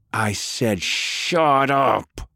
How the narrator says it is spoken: he screamed

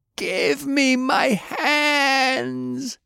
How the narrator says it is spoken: he screamed

